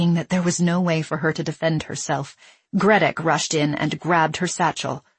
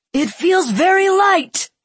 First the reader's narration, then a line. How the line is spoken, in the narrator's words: he shouted triumphantly